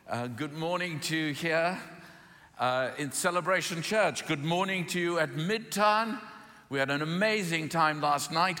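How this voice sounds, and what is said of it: English accent. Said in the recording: “Is the accent working all right? ... Anybody watch Downton Abbey? ... Does it sound the same? Have you watched The Crown? ... Doesn't sound like that. But I'm learning American.”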